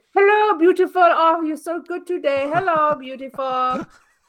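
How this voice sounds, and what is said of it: Imitates a woman's accented voice. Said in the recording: “she's got this accent”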